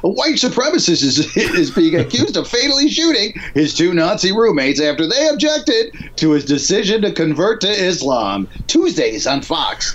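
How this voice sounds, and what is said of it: Exaggerated sitcom announcer voice. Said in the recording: “I'm gonna do it in my sitcom voice.”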